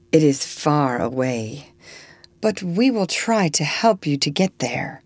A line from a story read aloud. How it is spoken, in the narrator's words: said the lady sadly